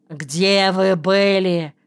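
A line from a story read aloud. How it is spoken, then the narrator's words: Frightened full-voice bark. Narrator (Russian): с перепугу рявкнул во весь голос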